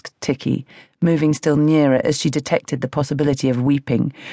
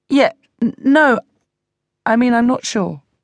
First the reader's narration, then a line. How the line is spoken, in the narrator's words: I stammered